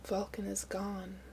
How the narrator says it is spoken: he said softly, all his pain laid bare, his mother was gone

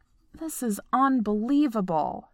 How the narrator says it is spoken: Stiles grumbles

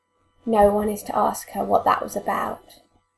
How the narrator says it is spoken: he says quietly

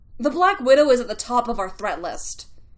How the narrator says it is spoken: Fury snapped

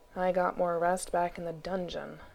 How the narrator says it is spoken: Gregor said grimly, by way of hello

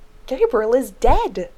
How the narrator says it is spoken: Zach cried in protest

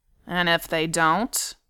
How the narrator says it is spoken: Dwalin growled

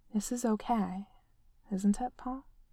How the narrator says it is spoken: he asked quietly

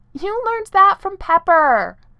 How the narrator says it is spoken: he yelled

